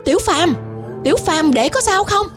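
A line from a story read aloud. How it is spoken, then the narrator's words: Shouted call. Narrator (Vietnamese): Gã hét gọi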